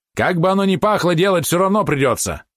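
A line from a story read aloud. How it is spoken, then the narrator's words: Irritated. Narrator (Russian): раздраженно сказал Рувинский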